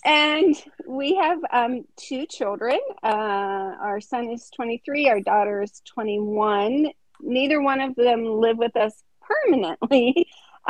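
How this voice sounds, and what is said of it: Northeast Ohio Midwestern accent. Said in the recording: “this Midwestern accent ... I'm from Northeast Ohio, which is even another different accent”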